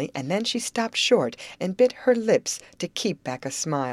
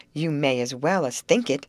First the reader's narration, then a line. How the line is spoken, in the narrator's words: snapped Molly with some asperity